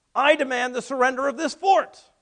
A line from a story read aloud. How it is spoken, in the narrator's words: smiled at the situation, and then he bellowed out